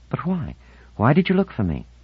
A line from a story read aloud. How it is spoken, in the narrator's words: she asked eagerly